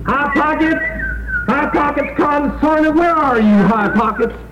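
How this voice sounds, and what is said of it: Shouting. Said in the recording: “stop shouting”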